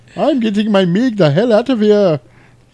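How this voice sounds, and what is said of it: Put-on unidentified foreign accent. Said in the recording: “I don't know what accent that was”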